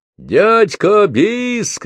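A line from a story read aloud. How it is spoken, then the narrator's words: Crowd shouting. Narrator (Russian): кричали с полок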